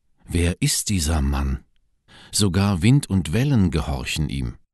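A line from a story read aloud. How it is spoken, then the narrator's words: Crowd whispering. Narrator (German): Die Leute flüsterten einander zu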